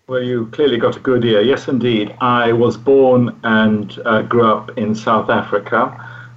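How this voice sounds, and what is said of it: English accent with slight foreign trace. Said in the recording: “I could just sort of sense a little bit in your accent, which is not from England, but although you've got a very English accent as well”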